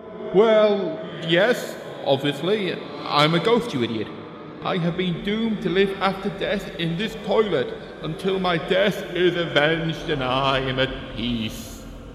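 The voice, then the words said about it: Echoey ghostly voice. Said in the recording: “your voice is all echoey”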